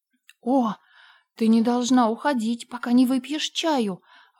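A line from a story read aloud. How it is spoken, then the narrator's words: Horrified exclamation. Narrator (Russian): воскликнула Энн в ужасе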